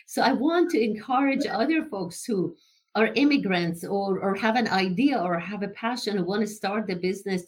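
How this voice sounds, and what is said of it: Immigrant's non-native accent. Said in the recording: “I cannot lose my accent”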